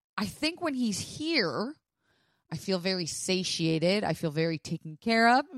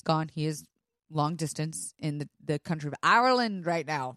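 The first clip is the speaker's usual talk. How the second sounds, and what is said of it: Bad put-on Irish accent. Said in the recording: “That was an Irish accent. That was really bad.”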